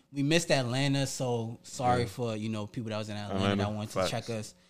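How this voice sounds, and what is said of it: New York accent. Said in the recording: “everybody kind of hears our accent ... We're in New York”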